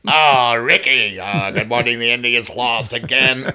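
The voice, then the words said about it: Imitates another person's voice. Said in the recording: “the ghost of Lucille Ball”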